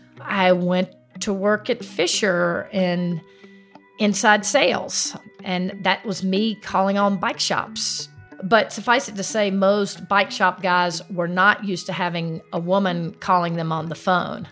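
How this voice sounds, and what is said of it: South Carolina accent. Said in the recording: “your accent sticks out, right? ... a South Carolina accent”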